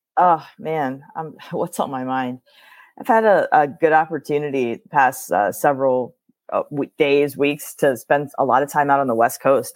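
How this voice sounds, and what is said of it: Hoarse, nearly lost voice. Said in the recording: “Sorry about my voice. It sounds like I've lost it”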